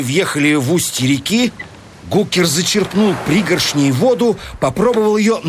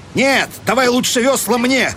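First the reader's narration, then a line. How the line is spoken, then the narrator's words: Almost angry shout. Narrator (Russian): крикнул он почти злобно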